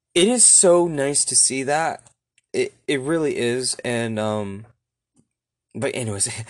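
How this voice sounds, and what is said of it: Teary, emotional voice. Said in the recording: “getting teary eyed just right now”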